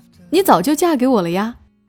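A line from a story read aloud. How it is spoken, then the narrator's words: Surprised, laughing loudly. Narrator (Chinese): 我媳妇一愣，哈哈大笑起来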